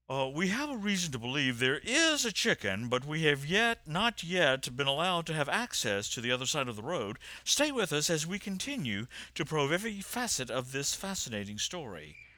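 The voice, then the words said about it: Imitates a news anchor's voice. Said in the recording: “That was my impression of Anderson Cooper.”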